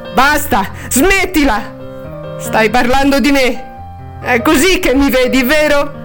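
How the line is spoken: Urge to shout. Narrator (Italian): avrebbe voluto urlargli

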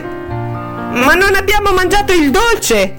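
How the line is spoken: Shout. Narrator (Italian): gridò Jane

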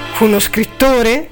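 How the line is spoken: Exclaiming. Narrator (Italian): esclamò Balbi

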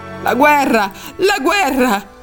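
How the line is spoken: Shouting. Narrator (Italian): gridava

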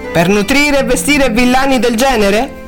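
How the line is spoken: Laughing. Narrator (Italian): Cunningham rise

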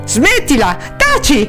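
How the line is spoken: Irritated shouting. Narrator (Italian): il suo pianto, o piuttosto le sue urla, irritavano Luke al punto che gli gridava

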